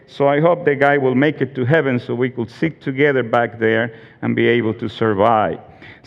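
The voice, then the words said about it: Funny, unique foreign accent. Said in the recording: “this funny accent that you have? It's unique. It's terrible.”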